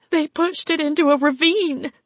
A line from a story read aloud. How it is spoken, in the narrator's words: Peggy whimpered